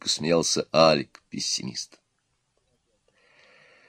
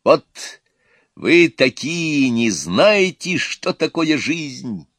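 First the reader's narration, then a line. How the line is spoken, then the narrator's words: Loud shout. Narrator (Russian): громко кричал оптимист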